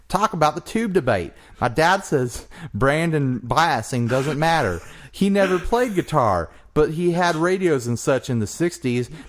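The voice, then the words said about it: Put-on Southern US accent. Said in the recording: “Southern accent ... Sorry for my southern accent.”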